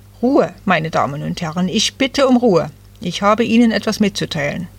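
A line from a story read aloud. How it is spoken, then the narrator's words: Stern man calling out. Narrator (German): einer der streng aussehenden Männer rief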